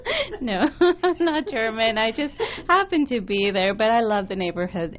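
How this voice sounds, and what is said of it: Noticeable non-native accent. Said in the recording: “You have an accent.”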